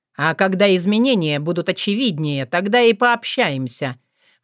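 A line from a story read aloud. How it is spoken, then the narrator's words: Promising snort. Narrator (Russian): многообещающе хмыкнул Филипп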